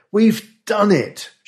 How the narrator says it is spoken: cried

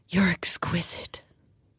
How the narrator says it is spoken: he breathed

